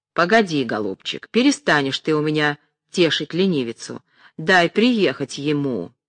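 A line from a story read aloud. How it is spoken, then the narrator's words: Impatient, menacing. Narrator (Russian): Потеряв терпение, она сказала грозно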